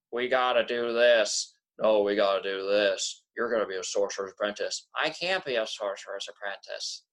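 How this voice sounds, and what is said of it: Dull-sounding imitation of a movie character. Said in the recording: “the most dullest sounding voices ... That's a good Hiccup impression.”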